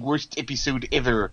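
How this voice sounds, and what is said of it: Imitates a cartoon character's voice. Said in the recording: “as the comic book guy says in The Simpsons ... That was a really good impression there”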